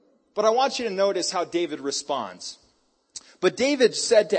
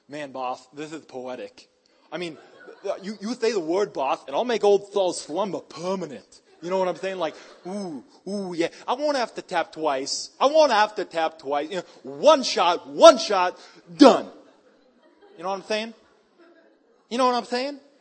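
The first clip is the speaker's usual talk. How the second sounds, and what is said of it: Italian accent with a lisp. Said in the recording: “he's got a lisp and an Italian accent”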